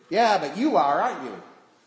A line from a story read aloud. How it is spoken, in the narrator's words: shouted over my shoulder